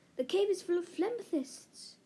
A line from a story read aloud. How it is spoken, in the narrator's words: Dev gasped